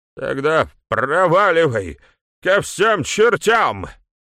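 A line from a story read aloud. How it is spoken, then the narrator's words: Roared. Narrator (Russian): взревел Ник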